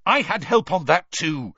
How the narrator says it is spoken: Harry snapped

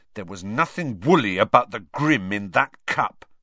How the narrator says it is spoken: said Ron hotly

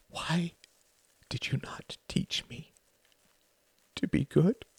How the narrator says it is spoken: He whispered

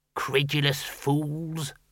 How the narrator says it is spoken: muttered the senior wrangler

